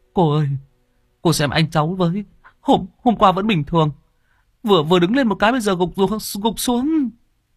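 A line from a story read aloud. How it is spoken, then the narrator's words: Young man, tearful voice. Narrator (Vietnamese): Người thanh niên mếu máo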